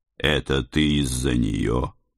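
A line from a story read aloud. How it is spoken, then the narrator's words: Quiet question, leaning close. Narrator (Russian): тихо спросил я, наклоняясь в седле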